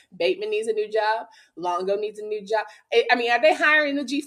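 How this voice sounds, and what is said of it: Country accent coming through. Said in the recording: “You see the accent starting to get a little more country.”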